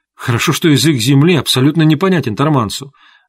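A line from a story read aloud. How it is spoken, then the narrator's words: Exclamation. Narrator (Russian): воскликнула Эвиза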